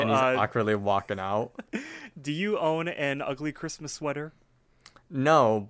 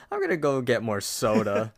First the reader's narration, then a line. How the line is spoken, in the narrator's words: He chuckles a little bit more and says